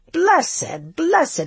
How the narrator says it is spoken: he cried

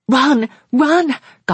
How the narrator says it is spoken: gasped Margaret

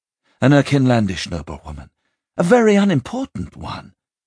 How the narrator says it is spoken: Miriam El said hastily, worried she might have gone too far in her improvisation

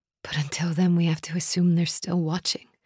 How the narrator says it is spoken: I whispered

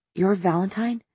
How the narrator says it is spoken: she whispered

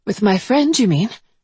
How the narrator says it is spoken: I replied, working to keep my voice light, breathy, though I was awake now

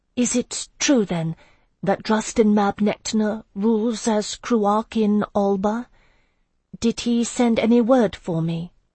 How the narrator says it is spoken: asked in a tentative voice, quite unlike her usual cool tone

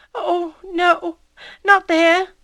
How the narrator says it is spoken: she said in a faltering voice

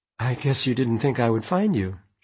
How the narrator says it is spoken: she said unsteadily

